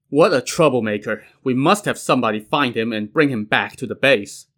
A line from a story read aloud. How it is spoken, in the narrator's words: Lu Junyi chuckled and said